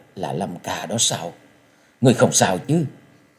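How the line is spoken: Trembling voice. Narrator (Vietnamese): Trung tiểu thuế giọng run run nói

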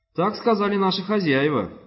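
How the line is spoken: Trembling, fearful, hopeful boy. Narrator (Russian): ответил Руис дрожащим голосом, полным испуга и надежды, чтобы не выходить из роли беспомощного мальчика для утех

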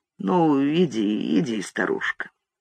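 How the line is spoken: Muttering. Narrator (Russian): Он постоял в нерешительности, пробормотал

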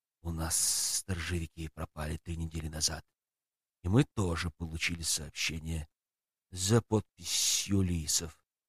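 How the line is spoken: Grim hiss. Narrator (Russian): мрачно прошипел ус

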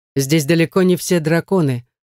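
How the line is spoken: Dry tone. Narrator (Russian): сухо произносит Редгер

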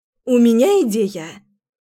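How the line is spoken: Exclamation. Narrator (Russian): воскликнула Лера

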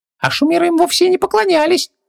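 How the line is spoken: Squeaky, in the ear. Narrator (Russian): пропищал в ухо назойливый джин

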